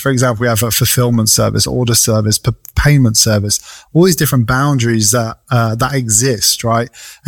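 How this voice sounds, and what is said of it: Speaks with a noticeable accent. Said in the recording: “Your accent is killing me”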